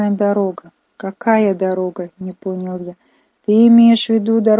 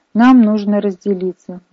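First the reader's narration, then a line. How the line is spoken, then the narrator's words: Exclaimed. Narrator (Russian): воскликнул я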